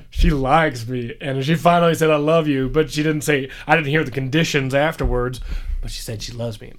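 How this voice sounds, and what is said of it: Put-on Southern twang. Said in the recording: “I don't know why I'm going to like a Southern twang.”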